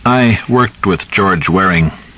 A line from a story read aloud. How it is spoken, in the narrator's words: Jules said evenly